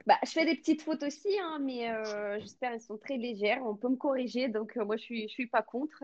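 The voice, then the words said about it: Slight foreign accent in French. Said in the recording (French): “tu parles hyper bien, mais avec ce petit accent qu'on aime bien”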